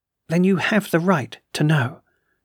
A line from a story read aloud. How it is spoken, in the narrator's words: she calmly interrupted